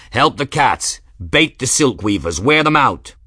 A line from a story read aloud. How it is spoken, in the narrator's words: Captain Grimm bellowing